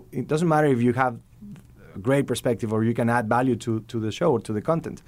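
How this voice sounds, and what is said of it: Mexican accent in English. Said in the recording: “as you can hear, a Mexican accent when I speak English”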